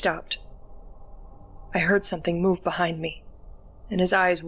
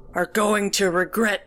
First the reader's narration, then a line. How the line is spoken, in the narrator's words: he wheezed